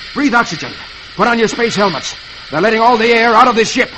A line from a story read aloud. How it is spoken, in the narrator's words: Flash … he pants